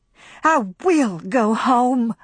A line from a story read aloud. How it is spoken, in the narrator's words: she cried